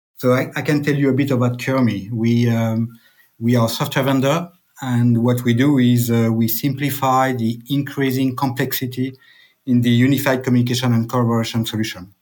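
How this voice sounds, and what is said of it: French accent. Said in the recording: “I'm French, as you can tell by my accent.”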